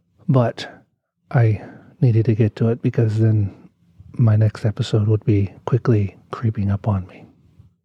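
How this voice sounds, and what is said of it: Sick, under-the-weather voice. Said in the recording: “If you can't tell by my voice, I'm a little bit under the weather today”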